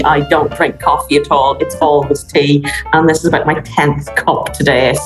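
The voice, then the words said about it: Irish accent. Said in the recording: “as you can possibly hear from my accent, I'm Irish”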